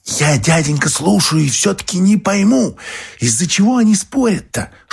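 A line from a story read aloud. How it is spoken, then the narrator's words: Whisper. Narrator (Russian): шепотом обратилась Марфуша к Феогносту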